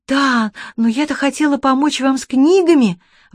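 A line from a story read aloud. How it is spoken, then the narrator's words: Exclaimed. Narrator (Russian): воскликнула Чермейн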